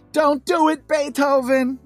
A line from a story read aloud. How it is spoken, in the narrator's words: Schroeder has both hands to his mouth, screams